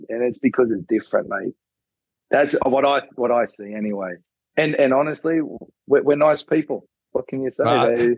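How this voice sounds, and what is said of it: Australian accent. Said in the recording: “you Aussies and your accents”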